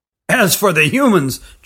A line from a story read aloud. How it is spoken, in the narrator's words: chuckled the grandfather